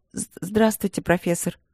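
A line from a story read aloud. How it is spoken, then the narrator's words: Businesslike tone. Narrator (Russian): деловым тоном начала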